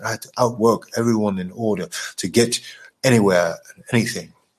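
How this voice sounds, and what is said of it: Put-on British accent. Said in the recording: “I should say it in a British accent”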